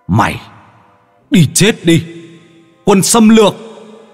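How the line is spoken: Echoing scream. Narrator (Vietnamese): Tiếng hét … âm thanh vang vọng

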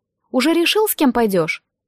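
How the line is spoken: Increasingly irritated. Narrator (Russian): Голос Вассервальда прозвучал еще более раздраженно

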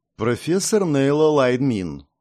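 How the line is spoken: Friend's calm answer. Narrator (Russian): спокойно ответила подруга

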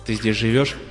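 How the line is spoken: Plain. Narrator (Russian): спросил Лема

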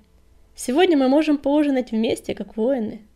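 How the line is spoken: Joyful suggestion. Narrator (Russian): радостно предложил он

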